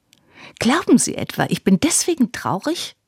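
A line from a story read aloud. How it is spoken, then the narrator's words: Shrieking crazed girlish giggle. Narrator (German): kreischte mit einem mädchenhaften Kichern, das etwas Irres hatte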